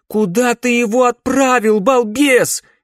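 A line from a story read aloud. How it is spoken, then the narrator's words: Shout. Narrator (Russian): крикнула она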